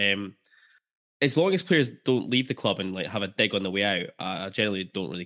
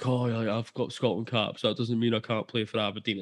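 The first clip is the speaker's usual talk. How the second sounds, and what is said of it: Imitates another person's voice. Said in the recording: “good impression of Declan Gallagher”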